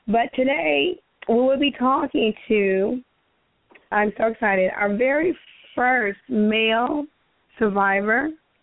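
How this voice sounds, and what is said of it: Hoarse voice cutting in and out. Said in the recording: “my voice goes in and out. I am hoarse. I am fighting off a very lingering, long cold. ... If my voice sounds different”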